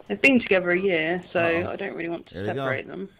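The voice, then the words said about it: British accent. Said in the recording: “the British girl's accent”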